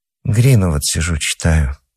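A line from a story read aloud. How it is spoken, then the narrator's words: Quiet. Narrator (Russian): сказала Нора негромко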